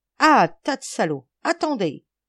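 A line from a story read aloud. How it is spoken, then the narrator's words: Group exclaiming. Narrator (French): s'exclama le trio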